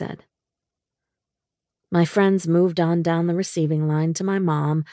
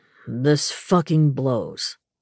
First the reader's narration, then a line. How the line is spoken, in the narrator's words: Knox said gruffly